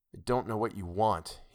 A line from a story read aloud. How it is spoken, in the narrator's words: muttered